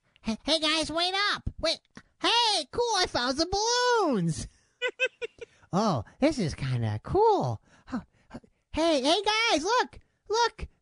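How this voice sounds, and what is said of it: Impression of a young boy's voice. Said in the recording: “my impression of a tender young Jason, age 11”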